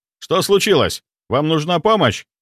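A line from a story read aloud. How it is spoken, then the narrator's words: Guard shouting. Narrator (Russian): выкрикнул охранник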